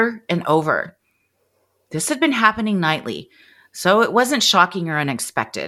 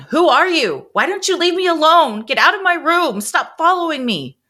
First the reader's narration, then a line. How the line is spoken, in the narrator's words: She was yelling